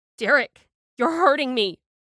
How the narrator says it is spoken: I wailed

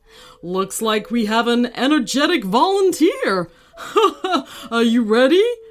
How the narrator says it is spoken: the instructor remarked after chuckling

